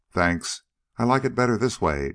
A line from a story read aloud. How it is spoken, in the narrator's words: Dawson replied grimly